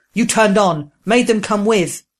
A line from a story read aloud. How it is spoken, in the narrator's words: Proam roaring